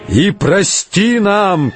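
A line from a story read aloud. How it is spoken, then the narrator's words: Shouting. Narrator (Russian): кричал он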